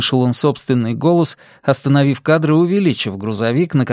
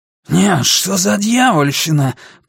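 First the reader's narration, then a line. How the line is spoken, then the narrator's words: Hissing. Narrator (Russian): прошипел он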